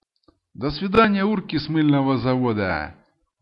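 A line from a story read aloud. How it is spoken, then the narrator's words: Loud laughing farewell. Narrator (Russian): Громко попрощался и засмеялся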